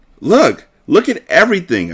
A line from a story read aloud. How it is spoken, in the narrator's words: I exclaimed